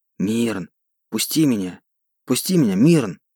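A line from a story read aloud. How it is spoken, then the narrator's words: Whispered. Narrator (Russian): От этого шепота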